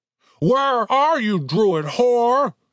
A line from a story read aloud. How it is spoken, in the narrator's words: the troll shrieked into the darkness